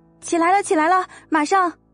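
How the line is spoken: Loud shout. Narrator (Chinese): 朝着门口大声喊道

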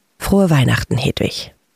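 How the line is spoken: Soft, gentle. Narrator (German): Harry zog die laufende Nase hoch, lächelte sanft und sagte dann leise

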